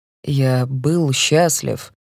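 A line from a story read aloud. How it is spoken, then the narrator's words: Slow. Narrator (Russian): медленно произносит Мэтт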